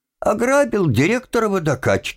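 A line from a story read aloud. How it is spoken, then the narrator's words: Annoyed, suppressing laughter. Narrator (Russian): ответил Тим и хотел, несмотря на всю свою досаду, рассмеяться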